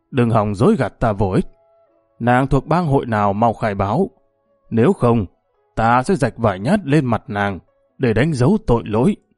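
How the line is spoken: Harsh menacing voice. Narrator (Vietnamese): Đại Hổ gằn giọng

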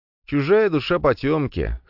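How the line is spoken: Wry snort. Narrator (Russian): хмыкнул я

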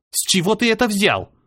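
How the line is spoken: Snapped back. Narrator (Russian): огрызнулась

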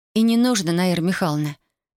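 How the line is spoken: Gentle advice. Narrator (Russian): мягко посоветовала Татьяна

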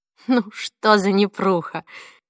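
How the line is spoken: Bitter laugh. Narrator (Russian): горько рассмеялась она

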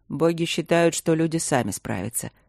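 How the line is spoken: Calm, unoffended. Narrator (Russian): спокойно произнес Игорь, ничуть не обидевшись

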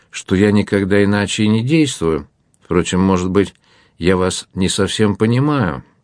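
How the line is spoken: Offended objection. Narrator (Russian): возразил Лоран обиженным тоном

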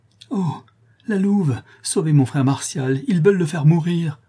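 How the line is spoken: Exclaimed. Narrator (French): s'écria François

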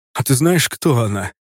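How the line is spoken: Hoarse rasp. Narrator (Russian): прохрипел

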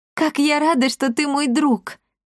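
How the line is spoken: Exclamation. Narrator (Russian): воскликнула

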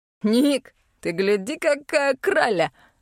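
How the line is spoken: Laughing man. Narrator (Russian): Рассмеялся бородатый шатен

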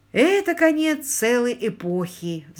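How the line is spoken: Sighing. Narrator (Russian): вздохнул Ларри

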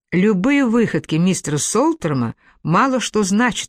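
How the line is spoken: Plain. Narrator (Russian): ответил я

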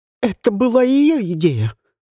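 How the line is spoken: Shout. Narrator (Russian): закричала Шанталь

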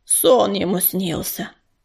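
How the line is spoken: Grumble, another voice. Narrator (Russian): Проворчал еще один голос

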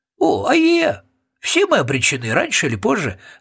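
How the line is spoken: Joyful agreement. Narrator (Russian): радостно согласился Роб Всякограб

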